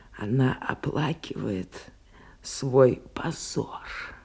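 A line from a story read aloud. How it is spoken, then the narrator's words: Triumphant whisper. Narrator (Russian): Госпожа Луазо беззвучно, но торжествующе засмеялась и прошептала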